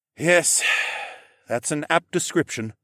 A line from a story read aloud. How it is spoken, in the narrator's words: he sighed